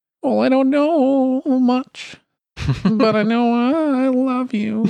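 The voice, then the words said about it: Singing in a character accent. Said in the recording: “one of the first times I've ever tried to sing in a character accent. It's actually a lot harder than you'd think.”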